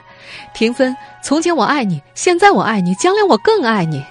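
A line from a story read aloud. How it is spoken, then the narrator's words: Teenage boy shouting. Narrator (Chinese): 十几岁的小男生大喊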